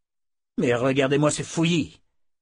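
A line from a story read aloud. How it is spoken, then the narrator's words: Exclaiming. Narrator (French): s'exclama Dalton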